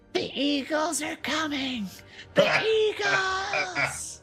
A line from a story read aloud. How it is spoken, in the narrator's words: I'm going to yell